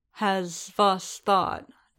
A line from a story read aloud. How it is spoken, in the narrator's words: Din said slowly